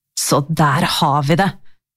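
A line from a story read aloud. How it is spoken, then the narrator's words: Low hiss. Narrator (Norwegian): veste han lavt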